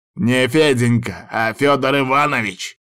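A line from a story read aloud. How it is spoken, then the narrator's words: Man growling. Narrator (Russian): рыкнул мужчина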